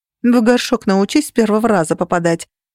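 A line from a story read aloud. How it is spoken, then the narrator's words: Snapping retort. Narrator (Russian): огрызнулась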